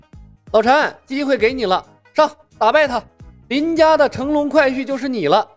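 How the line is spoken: Shouting. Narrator (Chinese): 同时喊道

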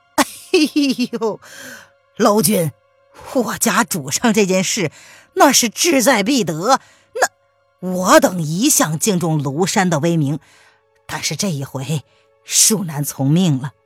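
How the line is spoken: Wry bitter laugh. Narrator (Chinese): 姓桑的苦笑道

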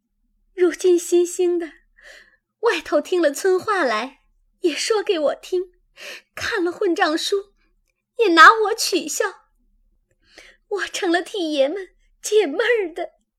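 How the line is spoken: Crying. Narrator (Chinese): 黛玉便哭道

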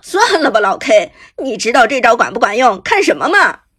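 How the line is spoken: Laughing. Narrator (Chinese): 阿飞 笑道

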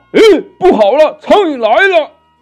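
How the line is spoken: Panicked cry. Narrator (Chinese): 那老魔慌忙的叫道

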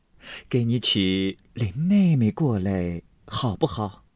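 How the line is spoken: Loud laughter. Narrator (Chinese): 宝玉却大笑起来

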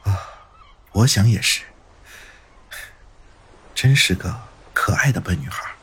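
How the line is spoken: Muttering to himself. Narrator (Chinese): 云峰喃喃自语

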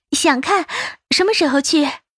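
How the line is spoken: Smug, laughing. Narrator (Chinese): 赵世南笑得几分得意

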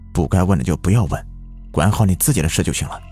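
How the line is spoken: Lowered voices. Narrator (Chinese): 他们都压低了声音

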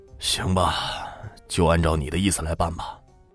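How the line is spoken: Soft sigh. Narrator (Chinese): 他轻轻的叹了口气

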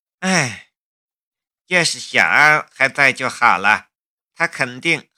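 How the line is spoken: Sighing. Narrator (Chinese): 陈阿娇叹了一口气

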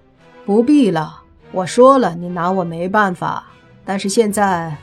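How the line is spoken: Calm, flat. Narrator (Chinese): 莫凡却淡淡的开口说

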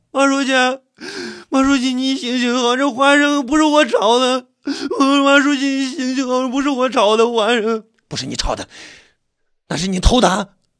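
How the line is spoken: Repeated pleading. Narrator (Chinese): 连声的哀求着

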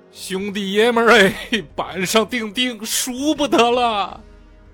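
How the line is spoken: Tearful whimpering. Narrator (Chinese): 郎青哭哭咧咧地说

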